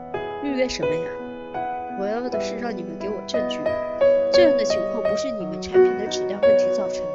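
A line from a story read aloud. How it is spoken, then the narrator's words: Raised voice. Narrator (Chinese): 我把声音提高了好几度，说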